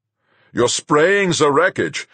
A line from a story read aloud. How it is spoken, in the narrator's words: Fuchs shouted in my earphones